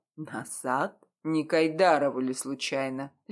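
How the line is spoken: Asked icily. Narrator (Russian): ледяным тоном спросил он

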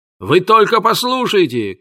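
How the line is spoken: Shouting, reading aloud. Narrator (Russian): кричал Филд и читал вслух

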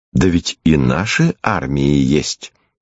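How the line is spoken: Calm objection. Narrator (Russian): Лиза спокойно возражала

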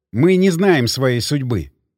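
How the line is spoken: Plain. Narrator (Russian): сказал я

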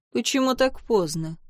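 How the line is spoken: Cold curt master. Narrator (Russian): холодно бросил хозяин

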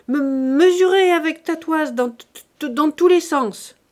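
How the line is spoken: Shouting. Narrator (French): cria-t-il à un ouvrier

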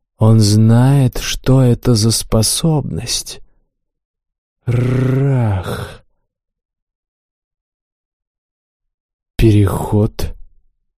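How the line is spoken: Quiet, surprised mutter. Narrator (Russian): Не сдержав от удивления эмоций, тихо пробормотал я

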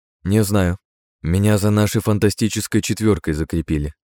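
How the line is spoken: Plain. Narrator (Russian): ответила женщина

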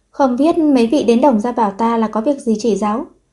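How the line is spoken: Smiling. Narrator (Vietnamese): Đổng Bích Linh mỉm cười rồi nói với Địch Khương

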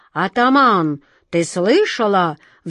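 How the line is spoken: Roared in unison. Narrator (Russian): взревели они

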